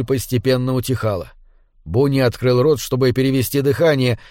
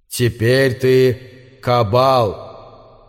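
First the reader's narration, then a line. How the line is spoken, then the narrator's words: Solemn pronouncement. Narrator (Russian): Бефоумет торжественно произнес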